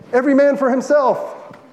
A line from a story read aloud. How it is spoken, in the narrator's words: The Congregationalists shouted